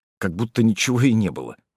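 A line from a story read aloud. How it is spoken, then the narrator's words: Grumbling mutter. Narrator (Russian): буркнул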